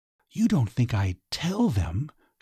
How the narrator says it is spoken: she whispered

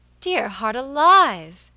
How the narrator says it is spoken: exclaimed Mrs

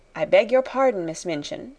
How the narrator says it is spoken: she said

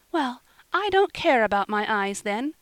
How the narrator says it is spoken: cried Polly

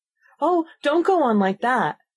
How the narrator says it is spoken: cried the poor Queen, in despair

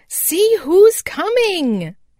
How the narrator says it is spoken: cried Happy Jack

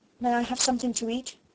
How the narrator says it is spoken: Sarah asked, rather faintly

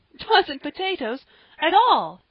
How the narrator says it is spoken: said Polly, with a little gasp

